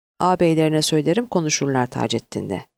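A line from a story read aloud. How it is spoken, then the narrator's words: Plain. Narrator (Turkish): dedi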